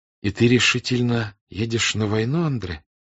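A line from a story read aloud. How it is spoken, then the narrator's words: Sighing. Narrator (Russian): сказала она, вздохнув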